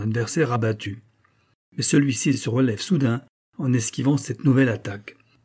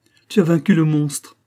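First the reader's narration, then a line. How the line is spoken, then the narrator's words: Exclamation. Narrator (French): s'écria la princesse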